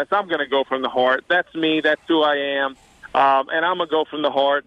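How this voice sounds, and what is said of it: Cajun South Louisiana accent. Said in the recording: “I know I have the accent. I know I'm from South Louisiana. I understand I'm Cajun”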